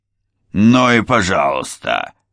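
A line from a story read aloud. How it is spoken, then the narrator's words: Angry bark. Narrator (Russian): рявкнул Ральф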